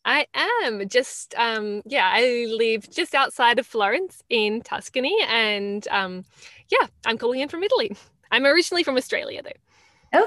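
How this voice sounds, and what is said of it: Mixed Australian accent, sounds Italian. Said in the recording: “accent. It sounded Italian to me... it doesn't really sound totally Australian anymore”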